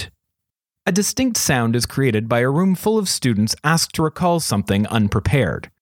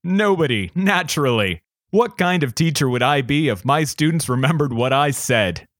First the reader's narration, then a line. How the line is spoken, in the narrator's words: laughed uproariously at his own wit